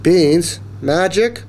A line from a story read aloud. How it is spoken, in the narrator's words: cried Mom